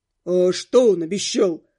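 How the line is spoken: Very deep male voice. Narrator (Russian): спросил какой-то парень с очень низким голосом

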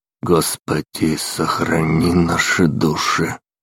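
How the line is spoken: Hoarse, flat, deathly voice. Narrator (Russian): Голос прозвучал за спиной, настолько хриплый и лишенный интонации, что, казалось, принадлежал мертвецу

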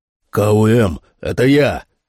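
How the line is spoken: Shout. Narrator (Russian): крикнул Фрэнкс

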